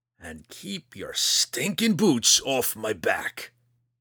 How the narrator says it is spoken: Roddy growled

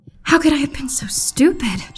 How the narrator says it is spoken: She muttered

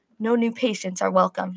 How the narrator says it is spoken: he murmurs

